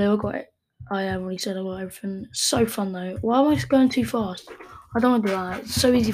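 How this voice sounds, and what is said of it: Usual voice. Nothing is said of it.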